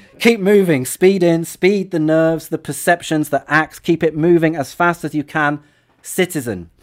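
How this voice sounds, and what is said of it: English accent. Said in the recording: “This feels wrong in an English accent”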